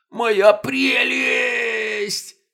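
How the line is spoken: Anguished howl. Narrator (Russian): Взвыл Колобков

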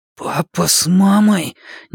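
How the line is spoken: Sudden wheeze. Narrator (Russian): неожиданно просипел

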